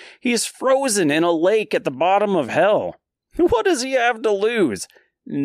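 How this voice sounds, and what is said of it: Usual voice. Nothing is said of it.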